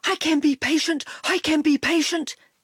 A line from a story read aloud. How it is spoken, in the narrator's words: he panted